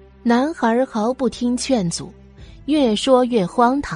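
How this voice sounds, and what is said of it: Usual voice. Nothing is said of it.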